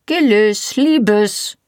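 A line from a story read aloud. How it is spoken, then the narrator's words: Called, restrained yet commanding. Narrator (German): rief eine Stimme vor der Tür, zurückhaltend und doch gebieterisch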